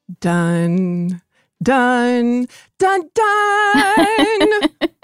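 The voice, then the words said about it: Vocal imitation of fanfare music. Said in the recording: “my best Olympics opening music impression.”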